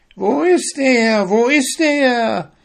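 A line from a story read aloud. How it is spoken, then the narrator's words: Shrieking witches. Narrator (German): kreischten die Hexen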